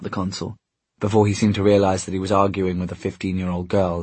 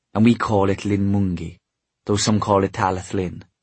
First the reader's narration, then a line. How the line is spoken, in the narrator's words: said Cecily in an exasperated tone